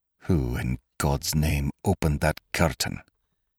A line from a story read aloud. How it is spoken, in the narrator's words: he muttered